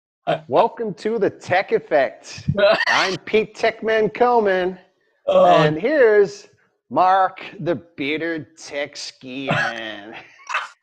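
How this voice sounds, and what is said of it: Put-on American accent. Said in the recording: “Does that mean now I have to put on an American accent?”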